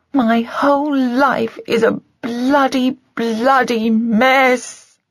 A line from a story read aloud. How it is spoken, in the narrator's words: wailed